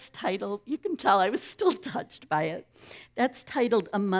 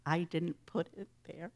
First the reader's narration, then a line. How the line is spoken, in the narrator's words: looked somber and said softly